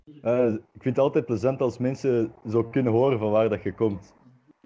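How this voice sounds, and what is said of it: Antwerp Flemish accent. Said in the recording (Dutch): “Bent je van Antwerpen? ... ik hoor het aan je accent”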